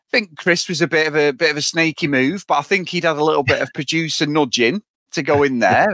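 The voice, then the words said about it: Mancunian English accent. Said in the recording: “I'm from Manchester ... I'd hate my own accent”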